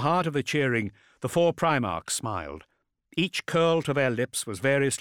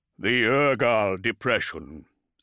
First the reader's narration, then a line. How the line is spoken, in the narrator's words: said one of Lorgar's brothers in a rumbling baritone